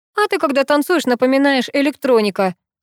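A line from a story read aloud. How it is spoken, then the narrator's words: Laughing. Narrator (Russian): рассмеялся Долгих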